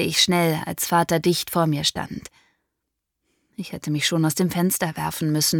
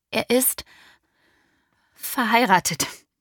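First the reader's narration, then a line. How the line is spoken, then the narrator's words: Fearful stammer. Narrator (German): stammelte ich und erwartete jeden Augenblick eine Ohrfeige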